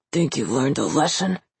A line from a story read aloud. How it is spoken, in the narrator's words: he growls